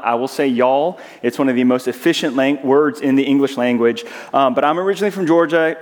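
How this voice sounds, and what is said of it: Southern American accent. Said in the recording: “I'm from Georgia, and so as I get excited, you'll hear my southern accent come out.”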